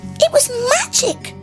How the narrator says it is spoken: Maggie exclaimed

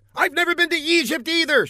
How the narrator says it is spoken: she snapped

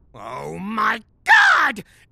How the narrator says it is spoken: Gary shouted

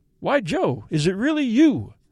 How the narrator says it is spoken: I exclaimed

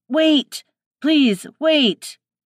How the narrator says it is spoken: He shouting

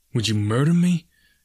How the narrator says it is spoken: he stammered

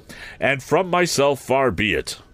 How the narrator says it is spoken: Joe ... triumphantly rescued himself with the words

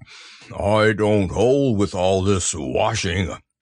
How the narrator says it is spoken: grumbled Eeyore

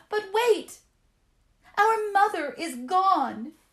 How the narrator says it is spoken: the children cried

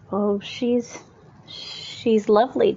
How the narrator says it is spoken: Dan stammered

